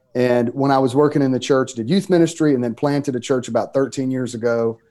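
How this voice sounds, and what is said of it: Mississippi Southern US accent. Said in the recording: “in the state of Mississippi. You can tell by my accent that where I'm from”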